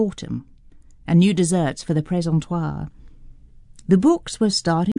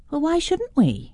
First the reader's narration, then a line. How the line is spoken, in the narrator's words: Julie piped up